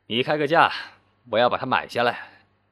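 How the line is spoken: Laughing, amused. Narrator (Chinese): 男人……笑够了，说

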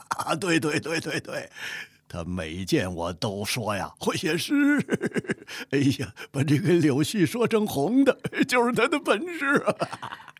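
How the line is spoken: Loud laughing voice. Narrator (Chinese): 嫉妒天生的大嗓门呵呵的笑着

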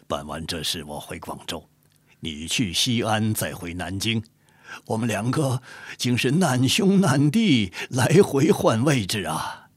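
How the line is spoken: Smiling. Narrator (Chinese): 金鸿也是一笑说道

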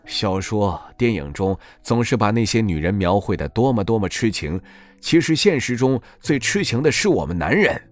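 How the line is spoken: Sighing. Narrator (Chinese): 沈月叹息着说道

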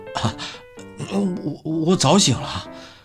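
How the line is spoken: Trembling with joy. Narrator (Chinese): 徐小兵高兴的声音都有点抖了

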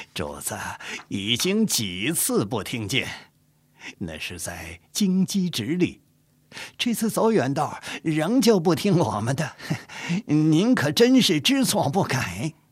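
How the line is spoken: Smiling. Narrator (Chinese): 纪云 笑着说

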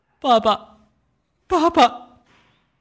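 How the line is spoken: Trembling cry. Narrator (Chinese): 杜纳多浑身哆嗦着，嘴里叫着

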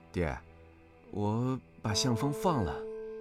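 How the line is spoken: Low voice. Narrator (Chinese): 黄夏低声道

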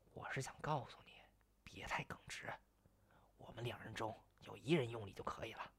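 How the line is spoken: Worried, lowered voice. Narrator (Chinese): 应喜不放心，压低声音

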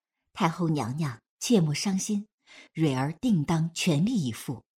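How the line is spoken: Sighing. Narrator (Chinese): 凤羽叹声

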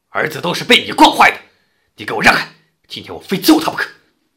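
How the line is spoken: Angry roar. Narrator (Chinese): 父亲脖子一粗吼道

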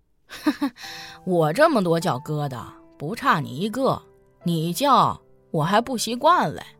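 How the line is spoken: Chuckling. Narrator (Chinese): 贾小春嘿嘿一笑说

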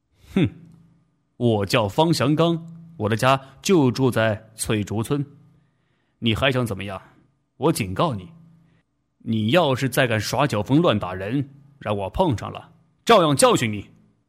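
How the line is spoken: Cold reply, young man. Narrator (Chinese): 小伙子冷冷地回答

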